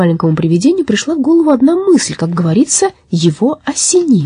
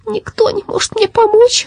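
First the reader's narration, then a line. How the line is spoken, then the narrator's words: Sobbing. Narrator (Russian): рыдала оно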